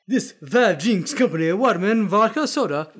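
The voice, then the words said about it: Bad put-on accent. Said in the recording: “Your accent's so bad, dude.”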